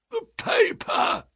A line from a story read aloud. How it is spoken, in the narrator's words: croaked a voice behind us